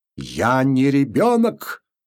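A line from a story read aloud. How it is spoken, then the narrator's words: Angry trembling shout. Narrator (Russian): закричал он и губы его задрожали, и глаза сверкнули злобно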